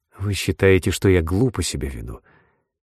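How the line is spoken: Barely audible, faltering voice. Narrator (Russian): Еле слышно, прерывающимся голосом проговорила Марша

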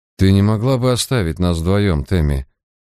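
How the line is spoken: Gentle request. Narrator (Russian): мягко попросил он

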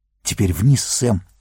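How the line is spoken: Whisper. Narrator (Russian): прошептал Фроду

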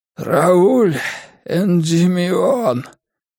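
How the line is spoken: Hoarse rasp. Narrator (Russian): прохрипел он

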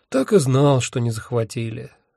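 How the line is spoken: Sighing. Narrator (Russian): вздохнул я

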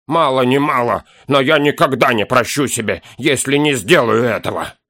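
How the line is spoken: Dwarf speaking. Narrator (Russian): вымолвил гном

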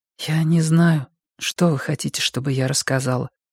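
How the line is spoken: Quiet reply. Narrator (Russian): тихо ответила Викки

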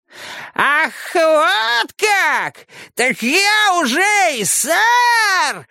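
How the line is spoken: Shrill two-tone siren shriek. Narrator (Russian): завизжал Кларенс своим двухтоновым голосом, похожим на сирену

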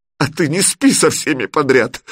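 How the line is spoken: Sobbing. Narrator (Russian): всхлипнула Алена

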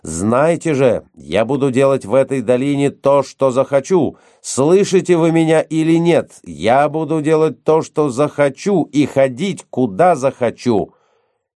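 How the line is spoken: Shouted. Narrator (Russian): выкрикнул

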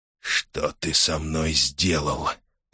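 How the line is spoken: Whisper. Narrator (Russian): прошептал он

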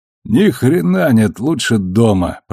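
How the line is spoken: Grumbling. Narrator (Russian): проворчал он

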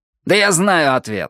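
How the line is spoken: Angry, curt. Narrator (Russian): сердито бросил Вуди

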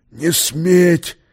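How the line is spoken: Inaudible hoarse wheeze. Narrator (Russian): неслышно сипел командир

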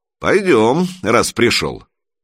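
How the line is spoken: Skeptical grunt. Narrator (Russian): Широкий хмыкнул, сказал

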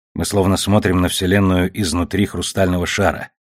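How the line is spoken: Muttered. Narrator (Russian): пробормотал Мурген

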